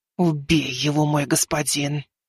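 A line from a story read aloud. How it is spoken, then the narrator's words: Fearful disgusted hiss. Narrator (Russian): Прошипела Азимандия со страхом и отвращением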